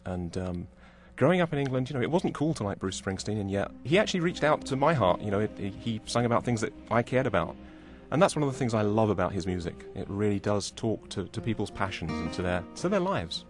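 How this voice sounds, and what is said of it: English accent. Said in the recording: “I grew up in England, of course, as you can tell from my accent.”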